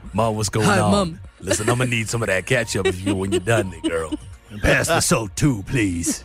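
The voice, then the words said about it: Imitates another person's deep voice. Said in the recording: “His voice is so deep. ... It's so deep. ... I'm trying to be him.”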